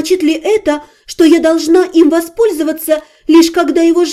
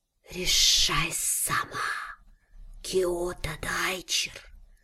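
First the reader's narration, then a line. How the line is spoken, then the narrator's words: Snake's irritated laughing hiss. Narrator (Russian): Змея издала странный звук, нечто среднее между смешком и раздраженным шипением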